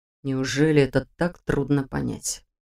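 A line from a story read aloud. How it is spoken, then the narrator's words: Quiet questioning reply. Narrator (Russian): Тихо ответил вопросом на вопрос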